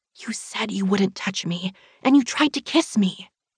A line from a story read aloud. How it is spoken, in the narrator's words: I hiss